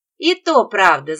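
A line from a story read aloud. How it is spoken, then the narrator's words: Laughing. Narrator (Russian): засмеявшись, произнесла я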